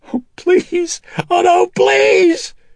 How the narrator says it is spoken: she was shrieking

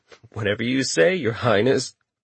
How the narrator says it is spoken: Chuckling under his breath, Richter replied

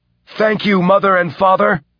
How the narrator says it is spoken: he shouted

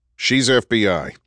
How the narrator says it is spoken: Andrew said sharply through his blood-speckled respirator

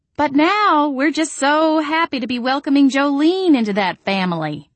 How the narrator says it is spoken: I said in a loud, explicitly cheerful voice

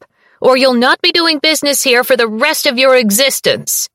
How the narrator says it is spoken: Ruse yells from the back of the shop

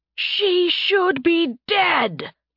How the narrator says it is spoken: Tarbin roared

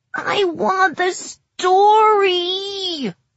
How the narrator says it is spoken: Oak whines, sounding confused

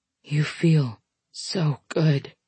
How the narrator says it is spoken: he whispers

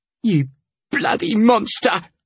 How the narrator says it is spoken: I snarled

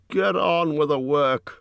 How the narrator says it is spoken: growled the butler

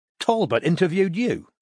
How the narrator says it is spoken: asked Strike sharply

